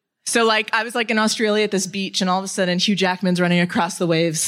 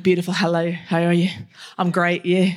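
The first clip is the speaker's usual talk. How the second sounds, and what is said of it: Put-on Australian accent. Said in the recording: “when you're in Australia, the accent is like automatic 10 points, you know, of hotness”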